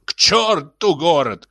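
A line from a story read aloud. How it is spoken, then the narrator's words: Shrill squeal. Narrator (Russian): взвизгнул председатель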